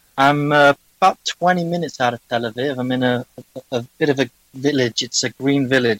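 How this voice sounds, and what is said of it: English accent. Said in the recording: “a European accent... I'm English”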